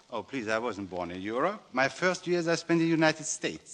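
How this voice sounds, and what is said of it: European accent. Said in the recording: “being born in Europe ... can't you tell by my accent?”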